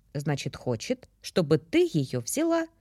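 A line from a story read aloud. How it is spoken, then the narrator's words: Calm statement. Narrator (Russian): спокойно констатировала собеседница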